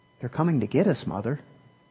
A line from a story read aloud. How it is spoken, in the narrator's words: Rose whispered back